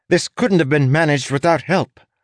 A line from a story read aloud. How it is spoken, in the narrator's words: snapped